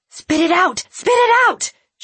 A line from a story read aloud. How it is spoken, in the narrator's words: she had screamed